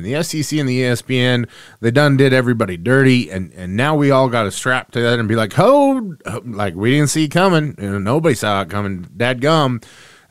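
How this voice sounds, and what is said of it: Put-on Southern accent. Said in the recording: “I go into my SEC accent every time I talk about him”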